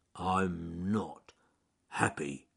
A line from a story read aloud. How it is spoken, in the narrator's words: growling